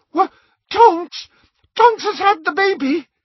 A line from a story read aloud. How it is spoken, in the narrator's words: Hermione shrieked